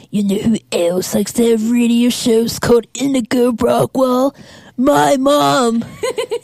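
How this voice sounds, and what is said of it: Cartoon character voice impression. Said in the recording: “my Muscle Man impression”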